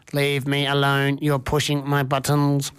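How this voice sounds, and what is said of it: Robot voice. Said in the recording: “my robot voice”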